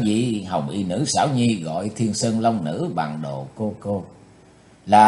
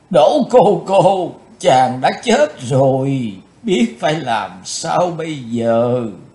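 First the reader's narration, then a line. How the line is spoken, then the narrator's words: Wailing after long crying. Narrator (Vietnamese): Khóc đã chán, Hồng Y Nữ Xảo Nhi kêu gào lên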